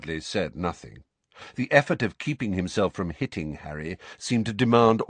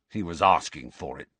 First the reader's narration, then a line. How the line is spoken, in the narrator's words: snarled Dudley